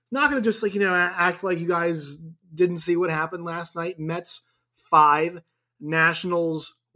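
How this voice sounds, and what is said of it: Sick, allergy-affected voice. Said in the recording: “If you can't hear it in my voice, I'm a bit under the weather as it is right now. Allergies.”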